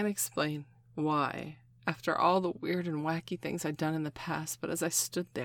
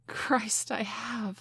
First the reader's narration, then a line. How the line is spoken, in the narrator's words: I gasped